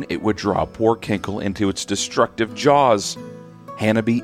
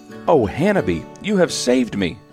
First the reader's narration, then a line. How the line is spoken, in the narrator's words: cried Kankle between tears